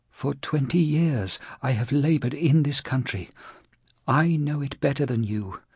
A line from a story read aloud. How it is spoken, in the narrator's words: Ferreira whispered weakly